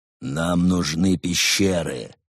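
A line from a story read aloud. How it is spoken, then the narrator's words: Exasperated growl. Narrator (Russian): уже неизвестно в который раз прорычал брат Немрот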